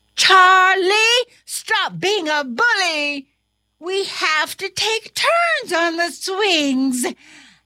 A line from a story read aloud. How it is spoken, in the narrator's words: The other students shouted